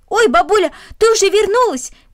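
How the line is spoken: Shouting. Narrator (Russian): крикнул он

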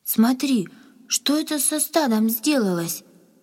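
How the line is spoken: Frightened cry. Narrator (Russian): испуганно вскрикнула Надя

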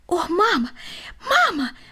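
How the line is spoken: Exclamation. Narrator (Russian): воскликнул он

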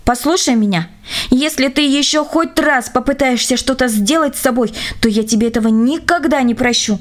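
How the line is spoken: Angry warning. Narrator (Russian): Оля сердито предупредила

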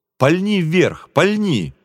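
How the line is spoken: Shouting. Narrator (Russian): крикнул мне товарищ

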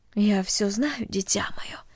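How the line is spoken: Quiet motherly voice. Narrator (Russian): тихо сказала мать

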